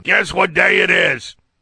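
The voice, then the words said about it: Impression of a cartoon camel's voice. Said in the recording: “It's really hard to get the voice without the annoying music in the background ... A pretty good impression? ... do your camel thing”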